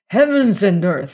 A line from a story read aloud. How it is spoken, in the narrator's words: exclaimed